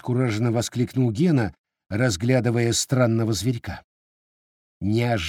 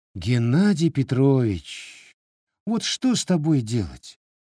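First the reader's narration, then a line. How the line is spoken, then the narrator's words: Tired question. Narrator (Russian): устало спросила директриса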